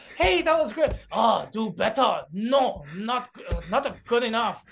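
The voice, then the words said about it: Put-on Japanese accent. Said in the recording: “I'm like an Asian parent to myself ... That's a Japanese accent”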